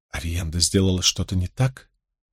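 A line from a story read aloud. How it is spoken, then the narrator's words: Whispering. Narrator (Russian): Эгвейн прошептала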